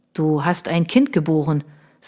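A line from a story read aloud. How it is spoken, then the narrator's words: Plain. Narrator (German): sagte er jetzt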